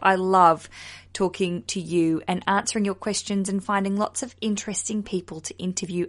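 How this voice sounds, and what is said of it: Speaks with a noticeable accent. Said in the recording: “Even though I've got this accent,”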